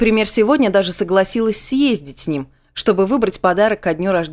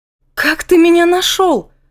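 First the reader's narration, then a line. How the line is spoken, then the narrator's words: Stunned exclamation. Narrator (Russian): воскликнула после того, как ко мне вернулся дар речи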